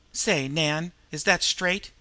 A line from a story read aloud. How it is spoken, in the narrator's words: he inquired anxiously